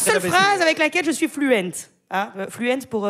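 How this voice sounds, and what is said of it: Usual voice. Nothing is said of it.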